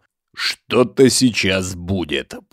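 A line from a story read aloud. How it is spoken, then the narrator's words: Through clenched teeth. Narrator (Russian): процедил Егор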